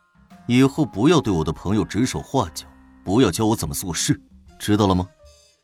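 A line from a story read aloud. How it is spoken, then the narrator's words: Stern command. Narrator (Chinese): 胡展娇沉声命令道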